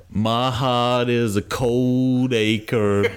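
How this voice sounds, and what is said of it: Put-on Texan accent. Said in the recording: “I don't really know where that accent went. ... No, you just went Texas.”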